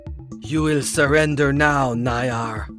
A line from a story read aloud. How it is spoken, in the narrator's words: she said, her voice throaty